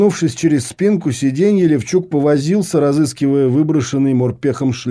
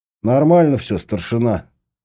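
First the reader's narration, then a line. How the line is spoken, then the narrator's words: Gloomy grumble. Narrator (Russian): хмуро буркнул морпех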